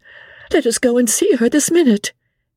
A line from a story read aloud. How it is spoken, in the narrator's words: cried out, starting up at once